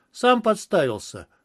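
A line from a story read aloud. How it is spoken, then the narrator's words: Grunt. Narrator (Russian): хмыкнул я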